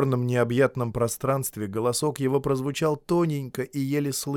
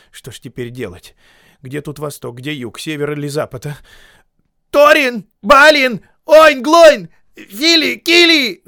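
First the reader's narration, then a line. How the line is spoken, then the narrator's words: Yelling at top of lungs. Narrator (Russian): заорал во все горло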